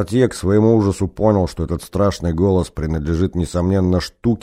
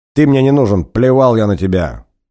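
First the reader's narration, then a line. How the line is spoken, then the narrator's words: Very angry shout. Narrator (Russian): очень зло крикнул ему через дверь Кортье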